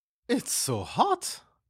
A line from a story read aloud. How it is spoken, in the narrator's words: Babette exclaims